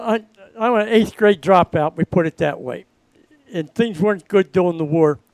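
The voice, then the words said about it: Baltimore accent. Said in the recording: “I can tell by the Baltimore accent. And it's not Baltimore, right? It's Balmer.”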